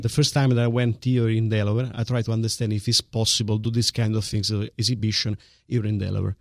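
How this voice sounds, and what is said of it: Italian-accented English. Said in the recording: “your magnificent Italian accent that I do love ... It is sexy.”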